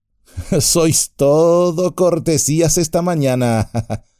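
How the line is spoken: Laughing. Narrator (Spanish): rió Legolas

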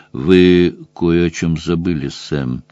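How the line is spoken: Quiet. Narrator (Russian): тихо сказал Гарри

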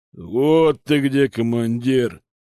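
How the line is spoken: Growled in unison. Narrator (Russian): прорычали они хором

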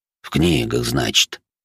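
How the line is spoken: Skeptical snort. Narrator (Russian): вождь хмыкнул

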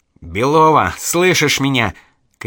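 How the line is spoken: Shouting. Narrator (Russian): кричал Архаров

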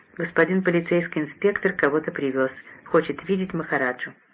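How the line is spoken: Quiet speech. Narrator (Russian): тихонько сказала

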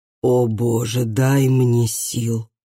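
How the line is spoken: Groaned. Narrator (Russian): простонал Ары

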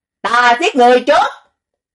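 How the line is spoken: Loud roar, harsh hiss. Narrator (Vietnamese): Hạ Mã Thiếp Nhi cao giọng gầm một tiếng, rít lên gằn

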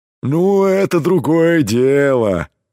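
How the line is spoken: Deep bass voice. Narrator (Russian): пробасил Кром

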